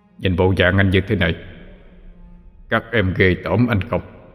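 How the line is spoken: Sad, deep frightening voice. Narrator (Vietnamese): đưa ánh mắt trầm buồn, rồi nói bằng chất giọng ồm ồm đáng sợ

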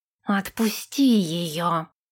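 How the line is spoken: Hissed. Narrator (Russian): прошипел Нэш

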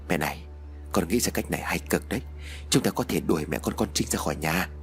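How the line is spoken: Soft confiding murmur. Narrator (Vietnamese): Chú Tín bây giờ mới thủ thỉ với mẹ

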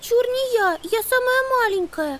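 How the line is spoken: Squeaking, little girl. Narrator (Russian): Пискнула Амелия

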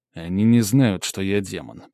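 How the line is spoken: Through gritted teeth. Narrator (Russian): процедил я сквозь зубы

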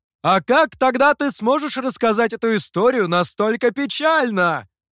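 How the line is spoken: Shouted reply. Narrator (Russian): крикнул в ответ мастер

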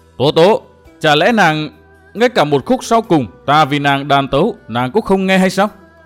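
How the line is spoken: Frantic, loud. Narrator (Vietnamese): Trịnh Vô Tâm cuống lên, lớn tiếng nói

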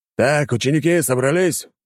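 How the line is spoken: Loud command. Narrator (Russian): громко скомандовал

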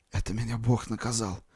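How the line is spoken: Whisper. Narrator (Russian): шептал он

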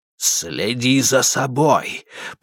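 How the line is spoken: Hiss. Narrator (Russian): прошипел Герман

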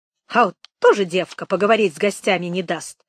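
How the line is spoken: Agitated grumbling. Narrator (Russian): заворчала Анисья, еще не в силах отойти от воспоминаний

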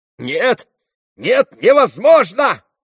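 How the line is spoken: Frantic shout. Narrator (Russian): крикнул как бы не в себе Петр Александрович

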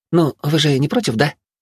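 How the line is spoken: Innocent questioning tone. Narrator (Russian): Невинным тоном поинтересовалась Мина

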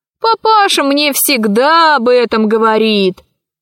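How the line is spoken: Laughing. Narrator (Russian): он засмеялся

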